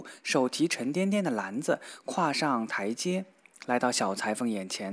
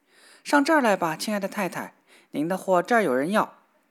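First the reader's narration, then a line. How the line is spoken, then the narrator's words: Cheerful shout. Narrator (Chinese): 小裁缝觉得这声音挺悦耳，于是……喊叫道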